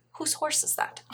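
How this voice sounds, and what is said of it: Soft put-on Scottish accent. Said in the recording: “in a very soft Scottish accent”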